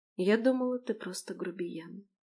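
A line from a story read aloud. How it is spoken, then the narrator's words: Tender whisper. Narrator (Russian): прошептала, чувствуя, как сердце сжимается от нежности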